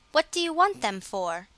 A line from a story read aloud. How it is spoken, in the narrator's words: asked her sisters